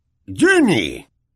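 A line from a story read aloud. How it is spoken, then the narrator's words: Astonished fatherly exclamation. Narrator (Spanish): exclamó su padre atónito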